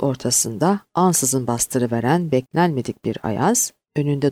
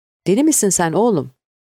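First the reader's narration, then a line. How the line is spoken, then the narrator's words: Roaring. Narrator (Turkish): diye kükredi Şaziye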